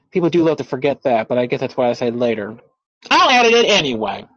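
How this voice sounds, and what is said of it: Loud, yelling voice. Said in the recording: “Why am I yelling?”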